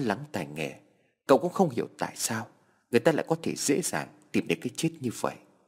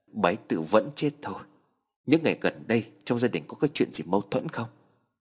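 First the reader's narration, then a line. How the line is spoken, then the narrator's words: Trembling voice. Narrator (Vietnamese): Anh trai cô cụp run rẩy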